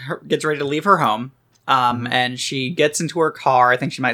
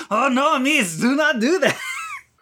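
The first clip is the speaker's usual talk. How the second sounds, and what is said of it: Bad put-on French accent. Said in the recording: “A car in a bad French accent is like”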